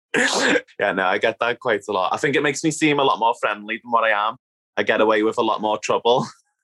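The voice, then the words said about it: Strong thick Liverpool Scouse accent. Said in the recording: “I grew up in Liverpool, as you can probably tell by my very strong, thick accent. ... I love the Liverpool accent. ... she's just a friendly Scouse Northerner”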